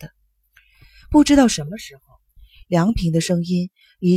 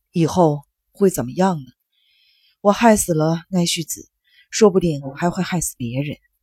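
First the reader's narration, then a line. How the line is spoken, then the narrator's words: Choked, halting. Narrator (Chinese): 梁平突然哽咽了，停顿了很长时间，接着说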